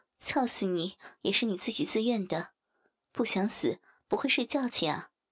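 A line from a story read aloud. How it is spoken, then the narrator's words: Casual, half-mocking. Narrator (Chinese): 张玉言若无其事地 似笑非笑道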